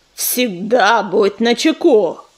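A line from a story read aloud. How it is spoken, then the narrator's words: Growled. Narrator (Russian): прорычал звездоцап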